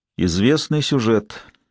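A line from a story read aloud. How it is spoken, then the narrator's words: Gloomy statement. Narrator (Russian): мрачно сказал Лэнгдон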